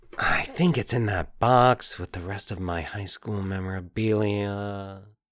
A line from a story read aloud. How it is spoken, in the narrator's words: he muttered